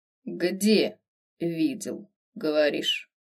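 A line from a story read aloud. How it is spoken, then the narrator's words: Flat emotionless question. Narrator (Russian): Безэмоциональным тоном поинтересовался Верховный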